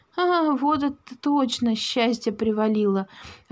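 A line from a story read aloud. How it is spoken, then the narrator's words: Joyful muttering. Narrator (Russian): радостно бормотал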